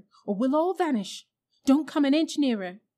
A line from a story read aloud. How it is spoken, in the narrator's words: cried Diggory